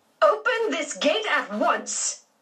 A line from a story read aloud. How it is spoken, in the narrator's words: Aunt Daisy shouted in a tone George had never heard her use before